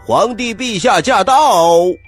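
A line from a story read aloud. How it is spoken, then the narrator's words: Sudden shout. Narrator (Chinese): 不知道谁喊了一声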